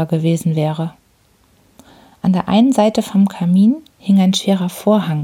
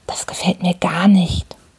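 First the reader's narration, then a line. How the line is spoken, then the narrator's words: Whisper in the ear. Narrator (German): flüsterte er mir ins Ohr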